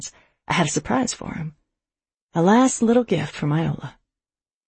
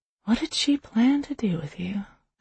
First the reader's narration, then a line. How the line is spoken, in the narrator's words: I whispered